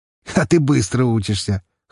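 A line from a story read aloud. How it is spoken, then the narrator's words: Chuckling. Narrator (Russian): хохотнул он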